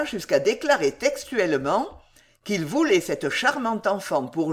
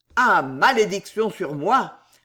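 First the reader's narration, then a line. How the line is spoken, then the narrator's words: Roared. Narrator (French): rugit Tournehem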